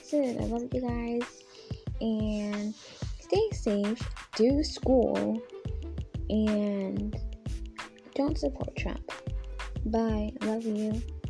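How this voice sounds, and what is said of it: Rough, just-woken-up voice. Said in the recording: “my voice sounds like so rough and tough. I literally just woke up.”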